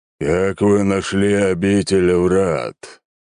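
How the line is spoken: Slow, deep drawl. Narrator (Russian): медленно и басовито протянуло нечто

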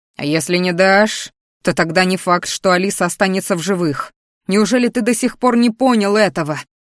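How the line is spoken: Roaring dragon. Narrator (Russian): взревел дракон

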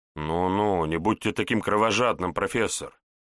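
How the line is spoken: Thoughtful, smiling. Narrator (Russian): Задумчиво улыбнулся Егор

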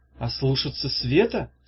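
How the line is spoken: Confused question. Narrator (Russian): спросила Ирка растерянно

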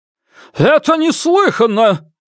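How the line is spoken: Shouting. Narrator (Russian): крикнул человек в парике

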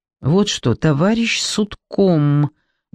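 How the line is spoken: Slow deliberate speech. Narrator (Russian): медленно произнес Николай Адольфович

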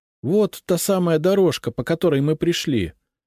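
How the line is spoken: Joyful. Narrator (Russian): радостно сказала Лиза

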